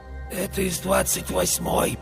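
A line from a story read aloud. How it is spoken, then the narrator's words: Husky voice. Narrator (Russian): послышался мне сиплый голос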